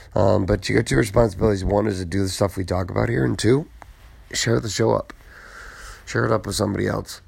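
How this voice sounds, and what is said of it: Tired, worn-out voice. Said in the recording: “my voice is burning out ... I'm obviously tired”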